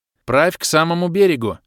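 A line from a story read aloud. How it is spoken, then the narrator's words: Command. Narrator (Russian): велел я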